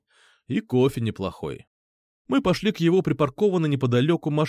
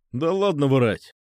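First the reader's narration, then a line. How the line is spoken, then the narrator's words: Scoffing snort. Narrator (Russian): хмыкнул он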